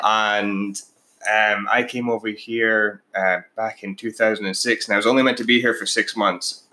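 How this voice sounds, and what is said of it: Scottish accent. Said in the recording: “Paige and I have some slightly different accents. I'm actually from Scotland originally.”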